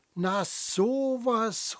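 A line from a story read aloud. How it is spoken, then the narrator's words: Calling back. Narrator (German): ruft zurück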